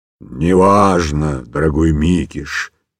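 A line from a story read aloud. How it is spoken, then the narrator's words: Quiet growl, lion. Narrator (Russian): тихо прорычал лев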